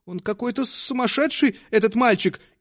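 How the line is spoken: Frightened, embarrassed whisper. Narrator (Russian): испуганно и смущенно шептала она

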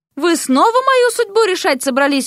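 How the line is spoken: Exclaiming. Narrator (Russian): воскликнула Вася

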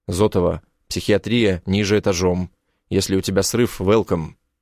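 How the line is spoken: Cold, curt. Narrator (Russian): Бросаю ей холодно

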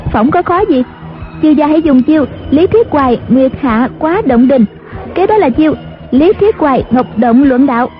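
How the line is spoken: Smiling. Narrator (Vietnamese): Ngữ Yên mỉm cười nói

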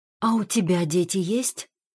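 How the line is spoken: Whispered question. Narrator (Russian): спрашивает опять же шепотом

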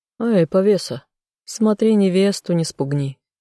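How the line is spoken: Laughing. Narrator (Russian): хохотнул Тессон

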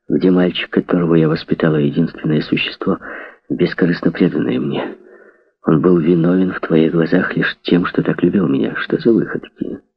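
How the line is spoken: Calm. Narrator (Russian): Проговорил спокойно

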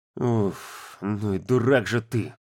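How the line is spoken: Exhaled. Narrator (Russian): выдохнул он

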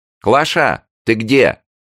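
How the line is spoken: Distant shout. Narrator (Russian): закричала из глубины дома Елена Васильевна

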